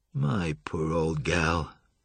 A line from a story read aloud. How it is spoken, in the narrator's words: murmured in a crestfallen tone